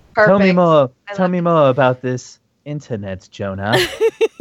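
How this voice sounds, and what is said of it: Deliberately bad character voice impression. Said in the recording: “my terrible Thrawn impression”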